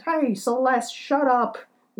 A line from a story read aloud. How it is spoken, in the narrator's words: I would hear him kind of yell at his dog